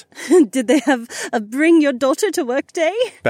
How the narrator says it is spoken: Becca laughed

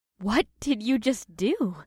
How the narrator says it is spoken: Janine gasped through her smile of disbelief

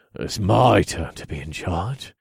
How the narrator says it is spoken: I growled

